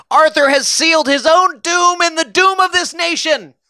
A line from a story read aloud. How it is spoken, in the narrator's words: Guiteau shouted